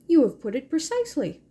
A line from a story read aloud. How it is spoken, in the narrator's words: he said cheerfully